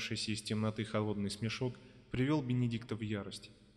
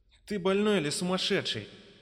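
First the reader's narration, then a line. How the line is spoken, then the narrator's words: Shouting. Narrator (Russian): закричал он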